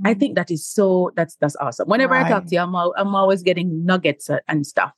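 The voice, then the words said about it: Jamaican accent. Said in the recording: “I know we have the same accent, but obviously, you're not in Jamaica anymore.”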